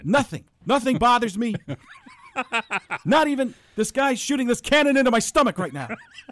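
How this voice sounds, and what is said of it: Strained, winded-sounding voice impression. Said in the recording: “your impression of him is as if he's getting punched in the stomach every time he talks”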